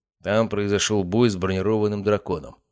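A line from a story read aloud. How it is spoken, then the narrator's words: Completely calm. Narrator (Russian): совершенно спокойно ответил маг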